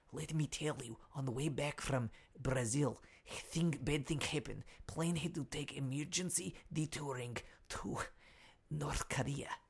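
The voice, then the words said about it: Whispering in a put-on accent. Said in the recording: “whispering now ... We hear you loud and clear. What's going on? Why are you whispering?”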